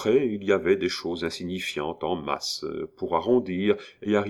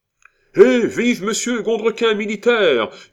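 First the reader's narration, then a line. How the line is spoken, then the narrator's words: Yelled amid joyful uproar. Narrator (French): hurla Cascadin au milieu du joyeux tumulte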